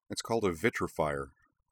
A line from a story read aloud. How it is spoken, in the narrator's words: Griffin said